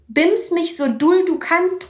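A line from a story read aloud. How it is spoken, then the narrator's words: Calling out. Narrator (German): ruft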